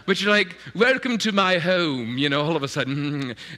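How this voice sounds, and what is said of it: Put-on posh English accent. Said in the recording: “all of a sudden you throw in an English accent too, even though you're from, you know, like the Bronx”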